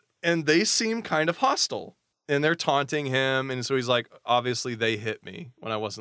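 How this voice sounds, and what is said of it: Usual voice. Nothing is said of it.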